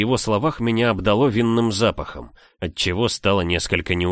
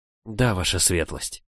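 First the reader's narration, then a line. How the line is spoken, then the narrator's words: Timid fearful whisper. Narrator (Russian): прошептала, боясь сказать лишнее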